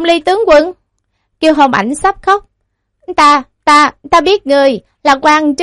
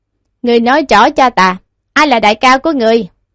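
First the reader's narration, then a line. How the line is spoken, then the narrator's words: Cold question. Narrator (Vietnamese): Tiêu Diêu lạnh lùng hỏi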